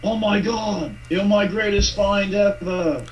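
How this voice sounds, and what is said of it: Put-on English accent imitating someone. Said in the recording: “sorry about the English accent. I was just trying to do Don.”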